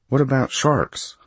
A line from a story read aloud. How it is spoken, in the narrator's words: I asked uneasily